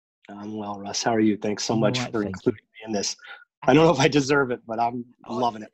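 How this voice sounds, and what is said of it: Upstate New York American accent. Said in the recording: “What a funny accent. ... Yeah, a weird accent. From upstate New York accent, sounds like.”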